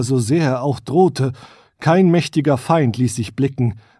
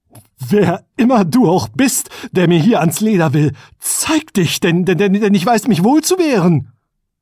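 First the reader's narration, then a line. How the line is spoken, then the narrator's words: Trembling voice, calling out. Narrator (German): rief mit bebender Stimme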